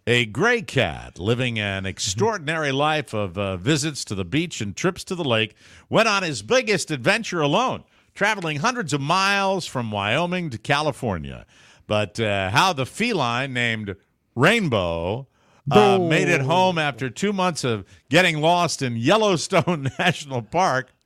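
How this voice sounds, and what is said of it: Mock news anchor voice. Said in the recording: “put on my Anchorman voice”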